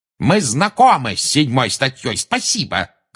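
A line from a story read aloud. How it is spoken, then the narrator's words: Shout. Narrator (Russian): крикнул Фадж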